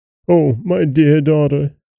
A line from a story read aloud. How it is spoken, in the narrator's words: he cried